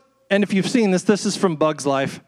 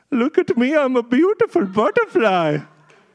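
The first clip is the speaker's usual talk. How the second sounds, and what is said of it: Put-on German accent. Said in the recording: “That German accent”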